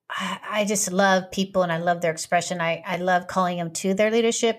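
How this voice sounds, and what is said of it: Young, childlike-sounding voice. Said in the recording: “you sound like a little kid. You sound so young”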